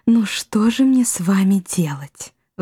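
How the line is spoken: Sigh. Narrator (Russian): вздохнула Рада

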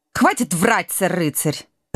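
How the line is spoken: Sharp interruption. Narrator (Russian): резко оборвала его Шелти

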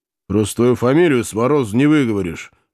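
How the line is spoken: Gruff chuckle, old officer. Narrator (Russian): хмыкнул в усы бывший подъясаул

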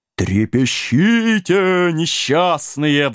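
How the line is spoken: Ghostly howl. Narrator (Russian): взвыл призрак

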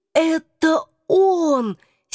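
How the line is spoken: Hoarse whisper. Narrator (Russian): сипло прошептала я

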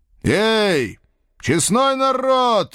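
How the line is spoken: Loud shout. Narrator (Russian): громко крикнул я

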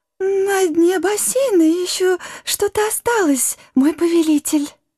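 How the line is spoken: Fawning squeak. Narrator (Russian): Подхалимски пискнула Гага

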